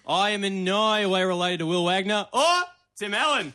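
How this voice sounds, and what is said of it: Put-on Australian accent. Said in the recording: “your accent is pretty good ... your best impression of our dialect ... That was actually pretty good ... It's the subtlety that matters”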